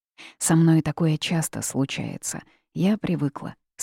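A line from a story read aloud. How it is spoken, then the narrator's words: Calm explanation. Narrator (Russian): спокойно пояснила Яньхуэй, хотя ее сердце по-прежнему отстукивало барабанную дробь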